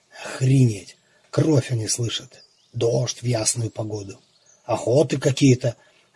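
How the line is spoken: Muttering under breath. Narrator (Russian): бормотал он себе под нос

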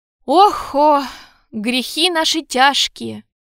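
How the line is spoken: Sighing. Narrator (Russian): вздохнул кардинал

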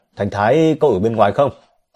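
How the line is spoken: Loud compassionate shout. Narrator (Vietnamese): Trương Cường động lòng thương xót, hét lớn

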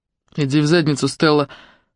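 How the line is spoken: Grumbling. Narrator (Russian): пробурчал Тюрке, не оборачиваясь

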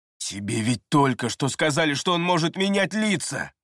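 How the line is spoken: Growled. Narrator (Russian): прорычал Эриас

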